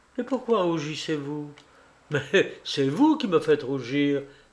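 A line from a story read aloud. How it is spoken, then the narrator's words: Laughing, blushing. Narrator (French): dit Alexeï en riant et en rougissant tout de bon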